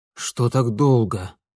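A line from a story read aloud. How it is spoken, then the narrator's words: Wheezing breathless father. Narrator (Russian): Отец с хрипом перевел дух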